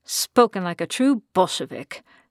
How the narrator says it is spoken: Marie muttered

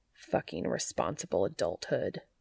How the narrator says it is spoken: he muttered under his breath

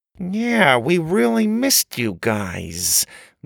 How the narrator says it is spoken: Grandma said through gritted teeth

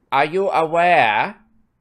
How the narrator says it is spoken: Umbridge said loudly, interrupting him

